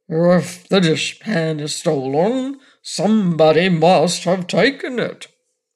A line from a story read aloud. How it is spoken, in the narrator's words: said in his deep, croaking voice